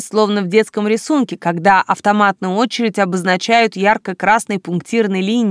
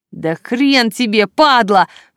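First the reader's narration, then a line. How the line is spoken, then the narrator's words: Silent inner howl. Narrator (Russian): взвыла я мысленно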